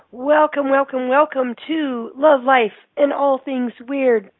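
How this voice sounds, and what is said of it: Raspy, hoarse froggy voice. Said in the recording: “This frog voice is ... I think you sound very sexy. ... In your frog ... my raspy? ... Voice. ... In my Melissa Etheridge voice. ... if you have some coughing that occurs ... a little bit of a, you know, cold.”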